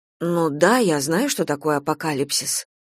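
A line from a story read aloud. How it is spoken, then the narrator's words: Offended mutter. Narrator (Russian): пробормотала Надежда, обидевшись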